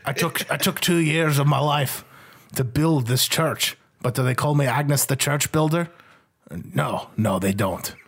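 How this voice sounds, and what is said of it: Shifting put-on Irish accent. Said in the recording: “I'm changing accents again. ... I'm like trying to track this accent. ... I come from Dublin originally, laddie.”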